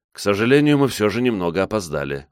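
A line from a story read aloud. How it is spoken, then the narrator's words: Sighing. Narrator (Russian): вздохнул я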